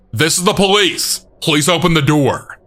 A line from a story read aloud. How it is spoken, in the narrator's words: I heard them shouting